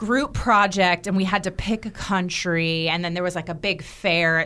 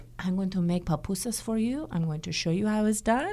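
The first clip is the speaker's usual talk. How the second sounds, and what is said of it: Poorly imitated foreign accent. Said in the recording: “that is a terrible accent. Oh, my gosh. It is terrible.”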